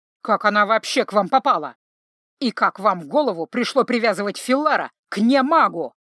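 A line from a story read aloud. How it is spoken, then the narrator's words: Grumbling. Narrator (Russian): продолжал ворчать специалист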